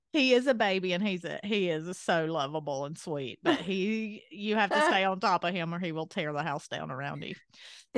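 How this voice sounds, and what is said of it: Country accent. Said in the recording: “your country accent”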